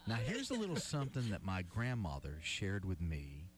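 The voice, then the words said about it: Southern twang. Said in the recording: “Was that your southern twang,”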